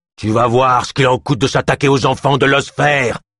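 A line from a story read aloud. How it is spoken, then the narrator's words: Growling beast. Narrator (French): gronda la gueule noire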